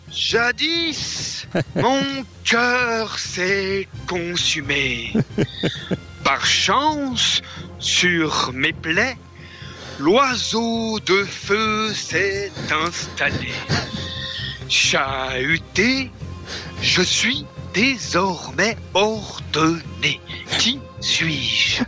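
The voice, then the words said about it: Imitates Père Fouras character voice. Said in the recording (French): “l'imitation du père Fouras”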